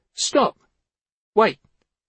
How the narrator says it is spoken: called out

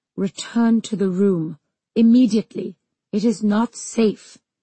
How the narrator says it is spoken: said Amar through clenched teeth

